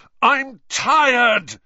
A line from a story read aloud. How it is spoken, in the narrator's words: he bellowed finally after nearly half an hour